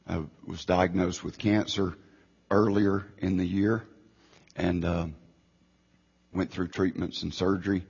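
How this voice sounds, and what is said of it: Weak voice, still recovering. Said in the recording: “I lost my voice, so I'm still getting my voice back... I knew it might be difficult for you to understand me”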